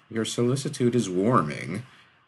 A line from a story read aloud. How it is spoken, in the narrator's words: said sarcastically